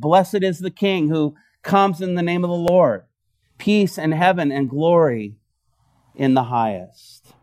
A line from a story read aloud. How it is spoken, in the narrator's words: they were shouting